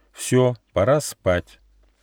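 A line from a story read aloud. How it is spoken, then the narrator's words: Stern. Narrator (Russian): Нюфа строго сказал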